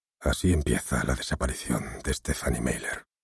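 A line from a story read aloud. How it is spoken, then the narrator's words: Awed whisper. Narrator (Spanish): el jefe Gulliver, como si estuviera cayendo en la cuenta de la magnitud de la situación, susurró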